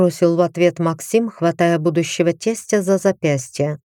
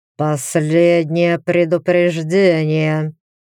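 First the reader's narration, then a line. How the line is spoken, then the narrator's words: Through gritted teeth. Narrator (Russian): процедил сквозь зубы Тритон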